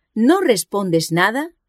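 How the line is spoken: Exclaimed. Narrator (Spanish): exclamó

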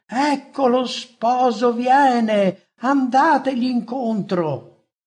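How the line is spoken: Shouting. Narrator (Italian): gridando

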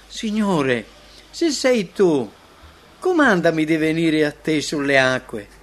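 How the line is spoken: Joyful, incredulous pleading. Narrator (Italian): fuori di sé dalla gioia, come se stentasse a credere, supplica

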